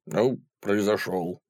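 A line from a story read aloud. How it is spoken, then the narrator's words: Gloomy grumble. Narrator (Russian): буркнул угрюмый тип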